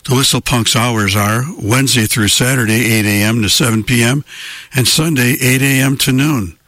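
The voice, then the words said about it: Strained, failing voice. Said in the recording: “What's happening with my voice? My voice is going”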